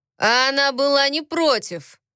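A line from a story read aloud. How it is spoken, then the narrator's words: Loud. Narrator (Russian): громко сказал Тогра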